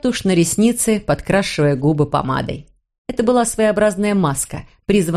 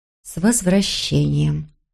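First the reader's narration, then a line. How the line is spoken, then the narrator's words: Smiling mutter. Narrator (Russian): пробормотала она и улыбнулась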